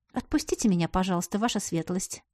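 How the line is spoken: Quiet plea. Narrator (Russian): попросила тихо

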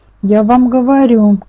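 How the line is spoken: Shouting mother. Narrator (Russian): кричала мама

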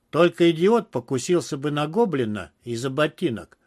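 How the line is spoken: Contemptuous snort. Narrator (Russian): презрительно хмыкнул Гафтенберг

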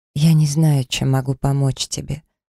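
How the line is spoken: Sad sigh. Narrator (Russian): печально вздохнула

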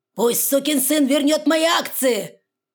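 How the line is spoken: Father roaring. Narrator (Russian): взревел отец

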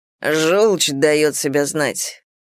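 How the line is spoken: Gloomy reply. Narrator (Russian): мрачно ответил Моррис

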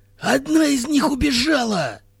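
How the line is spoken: Shout. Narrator (Russian): крикнул Хирилак

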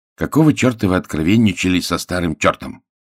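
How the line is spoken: Angry question. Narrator (Russian): спросил он сердито

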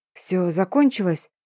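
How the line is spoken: Hoarse, disbelieving question. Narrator (Russian): хрипло спросила я, все еще не веря

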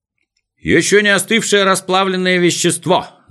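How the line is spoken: Shout from the audience. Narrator (Russian): закричал кто-то из слушателей

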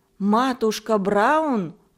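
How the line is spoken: Exclaimed. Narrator (Russian): воскликнул Пири

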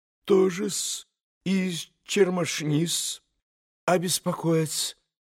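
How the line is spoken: Flustered near-whisper mumble. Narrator (Russian): пробормотал Смердюков почти шепотом, точно как бы потерявшись

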